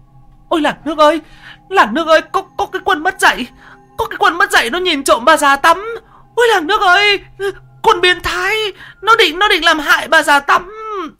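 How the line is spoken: Old woman shrieking. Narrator (Vietnamese): Bà rú lên

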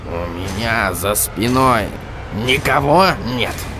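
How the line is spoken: Strangled-voice question. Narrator (Russian): Господин Кноп сдавленным голосом спросил

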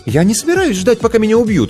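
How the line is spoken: Exclaimed. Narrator (Russian): воскликнула Снежана

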